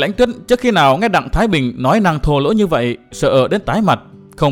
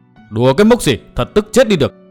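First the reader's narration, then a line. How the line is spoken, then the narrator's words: Furious loud shout. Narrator (Vietnamese): Đặng Thái Bình càng thêm tức đến cơ hồ mửa máu, giận dữ quát to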